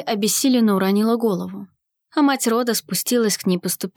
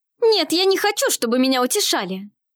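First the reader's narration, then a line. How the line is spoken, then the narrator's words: Indignant. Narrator (Russian): возмущенно проговорила Елиоль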